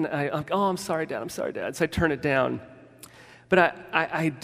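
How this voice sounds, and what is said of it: Usual voice. Nothing is said of it.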